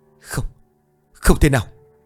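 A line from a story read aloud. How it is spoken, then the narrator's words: Terrified dazed muttering. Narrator (Vietnamese): Ông sợ đến mức thần trí không còn tỉnh táo, cũng không hét lên được, chỉ lẩm bẩm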